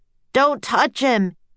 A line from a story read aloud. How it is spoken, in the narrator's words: shouted